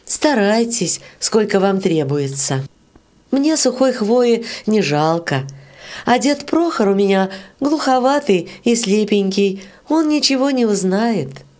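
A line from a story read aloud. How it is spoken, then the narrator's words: Gentle, affectionate. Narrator (Russian): сказала Варя ласково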